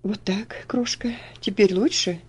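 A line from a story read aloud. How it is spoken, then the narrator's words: Tender question. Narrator (Russian): ласково спросил он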